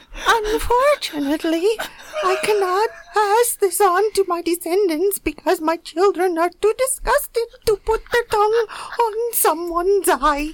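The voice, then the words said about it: Put-on Bosnian old woman accent. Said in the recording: “That's the best Bosnian-Herzegovina accent I've ever heard. ... that does actually sound like an old eye-licking woman from one of the old Yugoslav states. It's quite remarkable.”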